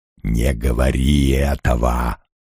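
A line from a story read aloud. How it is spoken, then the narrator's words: Hissing whisper. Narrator (Russian): свистящим шепотом промолвил он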